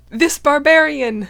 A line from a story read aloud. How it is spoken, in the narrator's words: Mithas called out to him